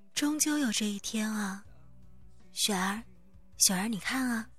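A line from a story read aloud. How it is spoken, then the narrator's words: Startled low sigh. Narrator (Chinese): 她脸色瞬的一变，脱口低叹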